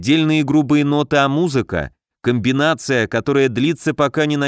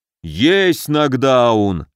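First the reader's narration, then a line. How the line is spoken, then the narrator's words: Gruff bark. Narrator (Russian): рявкнул медведь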